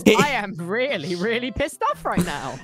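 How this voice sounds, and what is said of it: Attempted angry voice, sounds sad. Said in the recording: “You sounded not very mad... You sound really friendly... still... You still don't sound mad. Now you sound kind of sad.”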